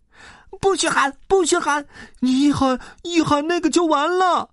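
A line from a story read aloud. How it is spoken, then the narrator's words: Panicked shouting, several voices. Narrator (Chinese): 三个怪物边嚷边慌忙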